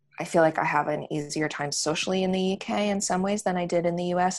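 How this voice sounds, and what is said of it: Foreign accent. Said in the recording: “my foreign accent ... my accent makes my oddness like placeable”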